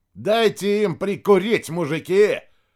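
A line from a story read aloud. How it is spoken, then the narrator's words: Shout. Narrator (Russian): крикнул Рядошкин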